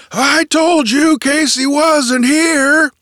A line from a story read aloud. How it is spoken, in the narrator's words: he roared cheerfully